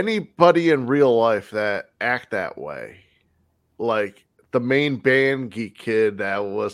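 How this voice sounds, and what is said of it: Usual voice. Nothing is said of it.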